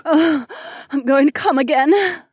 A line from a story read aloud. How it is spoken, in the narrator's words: Kat gasped